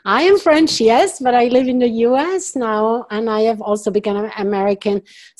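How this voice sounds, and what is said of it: French accent. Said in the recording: “I'm French originally, so you hear my accent.”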